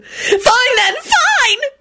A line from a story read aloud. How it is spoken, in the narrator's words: Rosie screeched and burst into tears